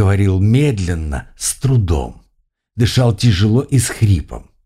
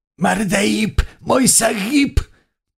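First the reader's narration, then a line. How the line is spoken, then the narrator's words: Tormented groaning. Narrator (Russian): Подчиненный магии демон ... стонал, его буквально всего выворачивало от необходимости говорить правду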